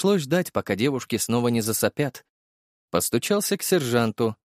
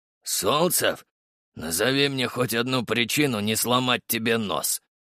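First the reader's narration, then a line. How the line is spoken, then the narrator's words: Sergeant asking. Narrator (Russian): спросил сержант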